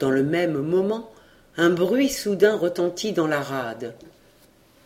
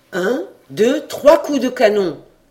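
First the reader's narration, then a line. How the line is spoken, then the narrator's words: Exclaimed. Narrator (French): s'écria Jacques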